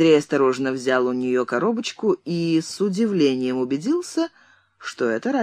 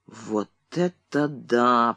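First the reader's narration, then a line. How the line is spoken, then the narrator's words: Muttered. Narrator (Russian): пробормотал он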